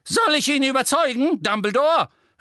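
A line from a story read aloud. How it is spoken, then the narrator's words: Witch calling out. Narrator (German): rief eine Hexe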